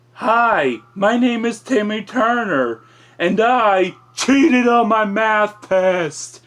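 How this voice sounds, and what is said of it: Timmy Turner impression, Fairly OddParents. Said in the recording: “his Fairly Odd Parents impression”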